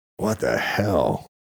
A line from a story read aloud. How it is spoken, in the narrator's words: Luke managed to croak